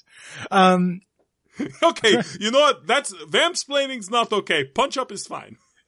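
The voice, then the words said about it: Put-on Eastern European accent. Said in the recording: “If it sounds like my accent is moving around Eastern Europe, that's just the price of being immortal. ... It's been surprisingly consistent.”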